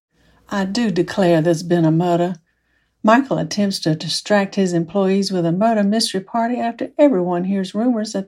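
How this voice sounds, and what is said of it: Great Southern American accent. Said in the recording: “a great Southern accent”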